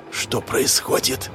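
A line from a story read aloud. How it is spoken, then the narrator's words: Whispered. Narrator (Russian): прошептал я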